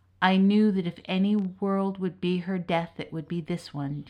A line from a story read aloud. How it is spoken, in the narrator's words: Diarmuid said gravely